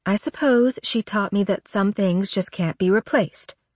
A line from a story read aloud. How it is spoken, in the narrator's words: Mom murmurs